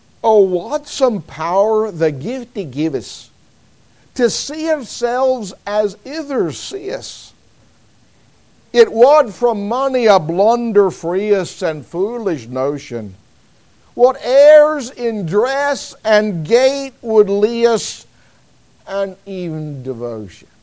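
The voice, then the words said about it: Put-on Scottish accent. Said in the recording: “my best effort at a Scottish accent.”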